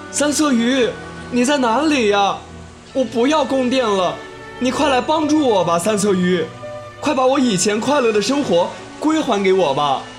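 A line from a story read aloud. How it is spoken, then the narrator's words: Loud calling. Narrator (Chinese): 他大声呼喊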